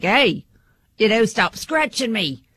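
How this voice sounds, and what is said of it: Put-on Australian accent. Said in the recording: “Is that a good Australian? ... It's the accent that does it for me. ... I like the accent.”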